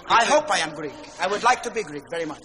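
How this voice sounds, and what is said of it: Greek accent. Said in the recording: “you have a Greek accent”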